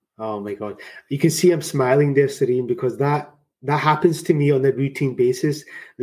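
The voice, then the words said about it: Strong Scottish accent. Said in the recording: “coming from Scotland originally with a strong Scottish accent”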